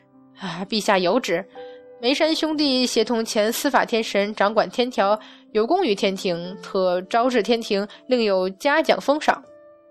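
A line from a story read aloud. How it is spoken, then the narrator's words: Timid, ingratiating laugh. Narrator (Chinese): 还是鼓不起勇气，只好维持着八百年来一贯的小心，陪笑道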